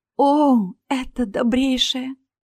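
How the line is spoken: Pleading. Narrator (Russian): взмолилась Астра

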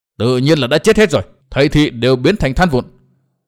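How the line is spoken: Sudden angry yell. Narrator (Vietnamese): lão ta bỗng giận dữ hét lớn

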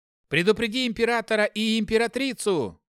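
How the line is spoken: Shouted after someone. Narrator (Russian): крикнул я вслед отцу

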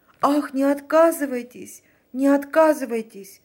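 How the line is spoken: Pleading voice. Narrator (Russian): промолвила фрау Леноре умоляющим голосом

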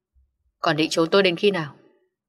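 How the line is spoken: Warm, slightly angry. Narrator (Vietnamese): Giọng nói vừa ấm áp lại pha thêm một chút tức giận

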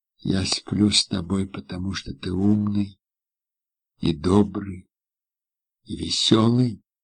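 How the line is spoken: Quiet. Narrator (Russian): тихо сказала она

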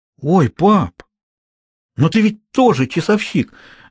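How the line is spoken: Exclaimed. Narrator (Russian): воскликнул Хьюго

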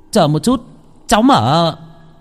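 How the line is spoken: Shouted. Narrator (Vietnamese): Tôi mới hét lên

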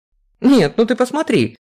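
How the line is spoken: Exclaimed. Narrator (Russian): воскликнула Вера

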